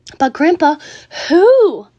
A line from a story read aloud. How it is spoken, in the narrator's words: cried Charlie